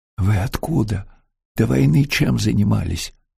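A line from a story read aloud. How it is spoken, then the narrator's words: Whispered question. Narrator (Russian): шепотом спросил Антон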